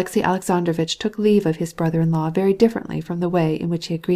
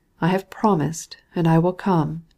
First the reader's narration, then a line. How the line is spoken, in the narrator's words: he replied in a melancholy tone